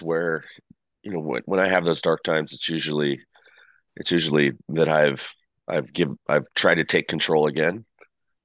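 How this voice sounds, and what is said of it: Slightly raspy voice. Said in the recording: “my voice is a little raspy this morning because I'm getting over a cold”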